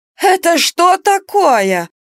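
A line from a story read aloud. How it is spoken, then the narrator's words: Exclaimed. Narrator (Russian): воскликнула приведенная кикиморой садовница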